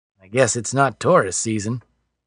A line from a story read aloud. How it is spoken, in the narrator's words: Alan mumbled